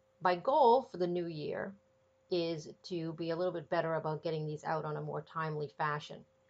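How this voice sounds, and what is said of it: Congested, stuffy voice. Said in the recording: “I have a little bit of a cold. ... I'm a little congested. ... I still have a little bit of a cough.”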